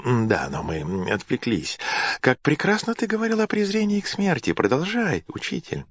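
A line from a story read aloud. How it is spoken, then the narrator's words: Muttering, then genial. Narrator (Russian): бормотал Нерон и добавил благодушно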